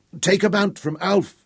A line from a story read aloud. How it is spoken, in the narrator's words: he shouted at Abeli